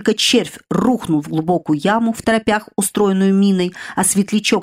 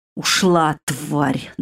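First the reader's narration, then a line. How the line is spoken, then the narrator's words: Annoyed growl. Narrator (Russian): досадливо рыкнул Мирт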